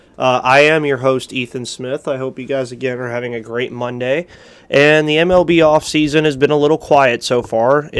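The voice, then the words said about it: Slightly nasal, congested voice. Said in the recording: “Sorry if I sound a little nasally.”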